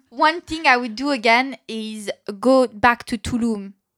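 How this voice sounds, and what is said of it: Put-on French accent. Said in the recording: “I'm changing my accent. I'm doing French instead. ... No, I'm going to do a French accent.”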